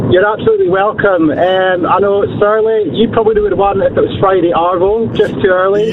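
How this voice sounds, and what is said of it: Scottish accent. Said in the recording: “Surely you can pick that accent. ... That's an accent. ... Scotland?”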